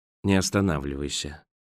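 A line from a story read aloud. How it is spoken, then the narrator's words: Sighing. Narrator (Russian): вздохнул Роэн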